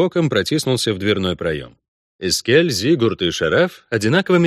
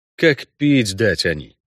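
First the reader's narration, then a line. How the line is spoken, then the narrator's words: Angry thought. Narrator (Russian): зло подумал Геральт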